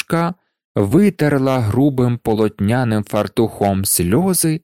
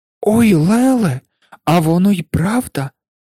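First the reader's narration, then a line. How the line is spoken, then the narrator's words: Exclamation. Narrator (Ukrainian): вигукнула Анушка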